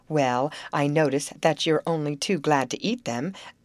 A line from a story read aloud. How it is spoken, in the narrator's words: Grace fairly snapped out the words